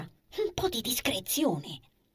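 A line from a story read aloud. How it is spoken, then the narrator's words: Whisper. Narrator (Italian): bisbiglia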